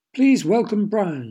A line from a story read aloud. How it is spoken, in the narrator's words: she cried